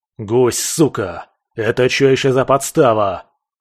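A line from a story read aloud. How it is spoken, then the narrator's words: Furious roar. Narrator (Russian): взревел скальпель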